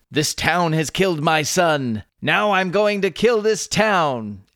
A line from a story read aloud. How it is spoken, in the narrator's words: Furious, Butler exclaimed